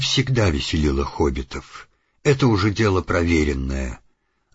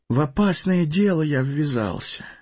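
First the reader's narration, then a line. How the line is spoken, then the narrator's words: Sad sigh. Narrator (Russian): печально вздохнул Фродо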